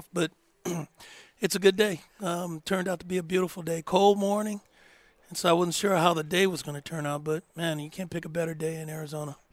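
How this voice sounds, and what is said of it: Voice slightly off. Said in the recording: “my voice is a little bit off”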